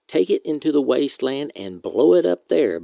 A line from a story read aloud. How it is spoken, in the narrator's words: Barman said